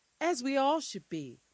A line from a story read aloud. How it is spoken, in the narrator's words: Mama sighed